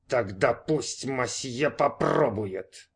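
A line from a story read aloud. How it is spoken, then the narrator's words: Waiter speaking through teeth. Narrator (Russian): процедил официант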